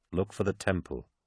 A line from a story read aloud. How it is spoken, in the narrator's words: Cinderman had said